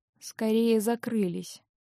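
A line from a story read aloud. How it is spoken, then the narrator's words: Muttered. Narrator (Russian): пробормотал Винс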